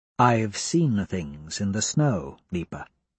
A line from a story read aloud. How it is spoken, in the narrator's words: says quietly